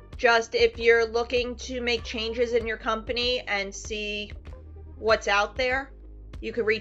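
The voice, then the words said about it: New York accent. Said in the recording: “I love your New York accent.”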